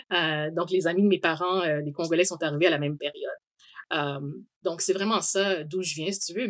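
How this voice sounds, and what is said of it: Québécois French accent. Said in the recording (French): “on sait très bien que je suis Québécoise par mon accent.”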